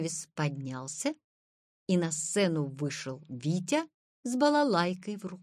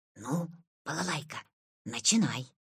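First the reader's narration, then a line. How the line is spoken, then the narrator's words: Quiet. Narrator (Russian): сказал тихо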